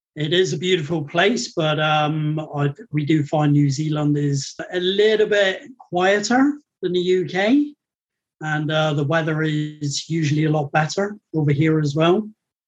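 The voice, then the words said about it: British accent. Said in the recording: “your accent is not what I expected from someone in New Zealand ... born and bred in the United Kingdom”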